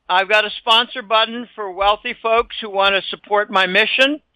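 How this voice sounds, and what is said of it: Slightly hoarse voice. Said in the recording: “my voice is a bit hoarse”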